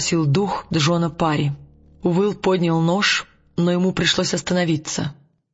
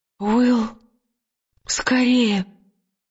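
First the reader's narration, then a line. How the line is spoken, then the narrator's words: Breathless gasping. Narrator (Russian): выдавила Лира, судорожно глотая воздух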